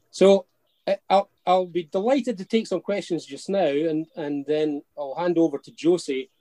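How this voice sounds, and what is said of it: Fast Scottish accent. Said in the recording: “my Scots accent rapid fire”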